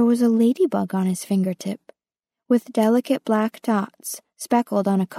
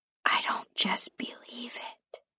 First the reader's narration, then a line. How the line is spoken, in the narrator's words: whispered Guy